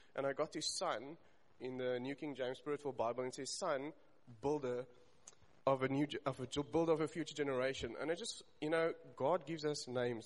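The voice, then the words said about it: Emotional, choked-up speech. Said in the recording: “I'm sorry that I'm just getting emotional there.”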